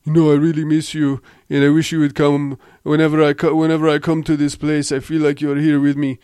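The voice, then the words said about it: Poor put-on Icelandic accent, Austrian-sounding. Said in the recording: “I'm butchering the Icelandic accent. ... I don't know why I'm even trying to sound like Arnold Schwarzenegger.”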